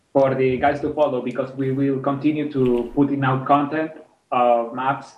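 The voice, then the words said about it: Very strong accent. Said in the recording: “my accent is very, very strong”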